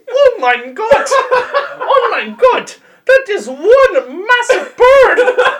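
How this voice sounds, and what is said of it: Cartoon caterpillar character voice. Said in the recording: “That poor fat caterpillar ... do his voice”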